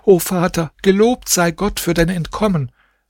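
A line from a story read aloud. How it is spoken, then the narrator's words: Joyful children shouting. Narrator (German): Sie umgaben ihn fröhlich, seine Kinder hingen sich an ihm fest und schrien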